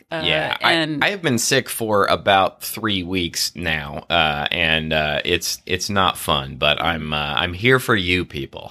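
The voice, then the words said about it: Nasal, raspy sick-sounding voice. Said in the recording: “Might be a little nasally voice ... raspy ... not in my best voice”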